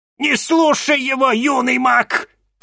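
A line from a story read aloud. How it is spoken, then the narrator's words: Shouting. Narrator (Russian): крикнула мадам Анаит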